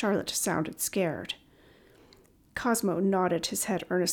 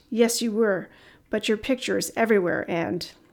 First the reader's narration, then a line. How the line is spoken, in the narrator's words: Cosmo chuckled again